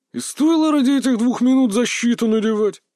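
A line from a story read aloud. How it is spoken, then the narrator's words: Displeased grumble. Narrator (Russian): недовольно проворчал парень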